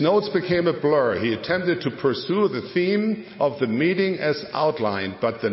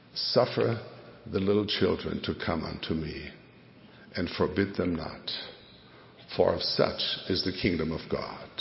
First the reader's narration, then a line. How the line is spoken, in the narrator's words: the Spirit whispered